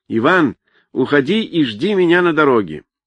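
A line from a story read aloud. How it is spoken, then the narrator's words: Loud, toward bushes. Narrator (Russian): он громко сказал в кусты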